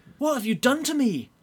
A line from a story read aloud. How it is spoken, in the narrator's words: Jimberly cried, quite unreasonably